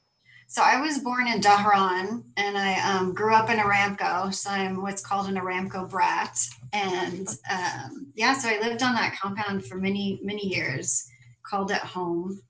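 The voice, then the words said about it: American accent. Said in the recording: “People always ask why my accent is so American.”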